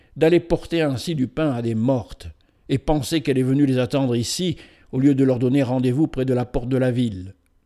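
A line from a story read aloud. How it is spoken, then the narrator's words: Woman exclaiming. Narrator (French): s'écria une des femmes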